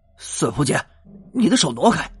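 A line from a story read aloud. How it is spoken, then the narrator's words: Apologetic. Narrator (Chinese): 道歉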